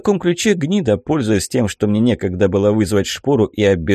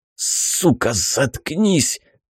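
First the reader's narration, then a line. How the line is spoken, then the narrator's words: Hoarse wheeze. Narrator (Russian): прохрипел я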